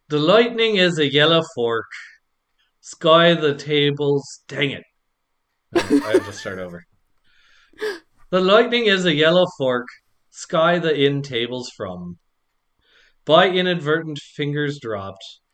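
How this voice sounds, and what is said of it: Put-on Irish accent. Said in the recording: “in an Irish accent”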